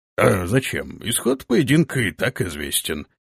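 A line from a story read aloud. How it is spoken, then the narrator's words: Mumbled. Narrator (Russian): вновь промямлил гонец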